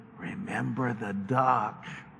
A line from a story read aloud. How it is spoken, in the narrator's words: she whispered to Johnny